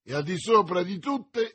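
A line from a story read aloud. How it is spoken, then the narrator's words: Enthusiastic exclamation. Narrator (Italian): esclamò D'Artagnan, quasi trasportato dall'entusiasmo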